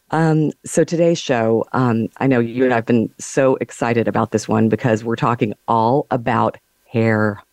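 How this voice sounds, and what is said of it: Slightly scratchy, hoarse voice. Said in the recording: “I'm a little scratchy throated this morning, so forgive the voice.”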